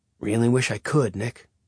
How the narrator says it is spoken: Caleb said under his breath

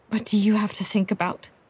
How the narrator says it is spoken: He sighed heavily

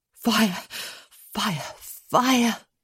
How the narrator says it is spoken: she mumbled to herself

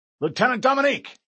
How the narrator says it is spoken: Captain Keyes barked

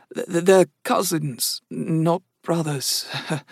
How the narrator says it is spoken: Dave said in a broken voice

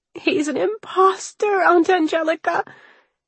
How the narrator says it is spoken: Anna wailed between hitching breaths

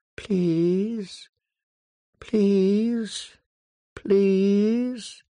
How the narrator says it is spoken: the long trailing branches whispering

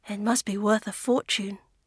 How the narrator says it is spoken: she murmured

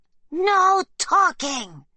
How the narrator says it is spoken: a guard screams

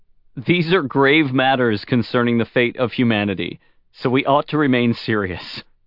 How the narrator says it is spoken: Luoji said, holding in his laughter

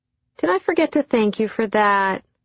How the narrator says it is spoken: I chirped with wide eyes

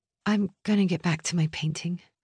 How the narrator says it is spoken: Hannah said, her voice small

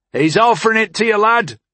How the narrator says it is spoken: a voice shouted

